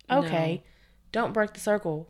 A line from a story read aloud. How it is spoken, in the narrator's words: yelled out